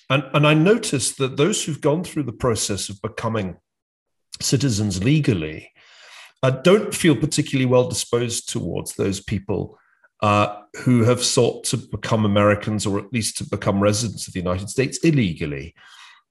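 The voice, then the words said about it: British English accent. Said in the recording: “I come from the UK, as you can tell from my funny accent.”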